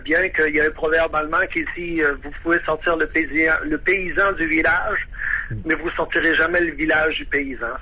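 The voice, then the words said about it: Québécois French accent. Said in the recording (French): “vous m'écoutez parler, là, je parle encore avec l'accent québécois”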